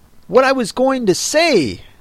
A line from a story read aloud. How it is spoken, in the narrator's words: said the dodo in an offended tone